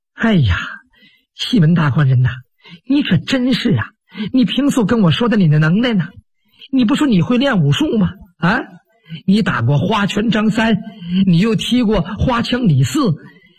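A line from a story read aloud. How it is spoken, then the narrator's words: Contemptuous mocking laugh. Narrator (Chinese): 潘金莲 带出了轻蔑的一笑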